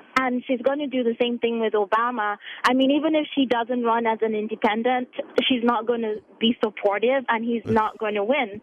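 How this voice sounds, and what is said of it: Nigerian accent. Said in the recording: “your delightful, lovely accent ... Originally from Nigeria.”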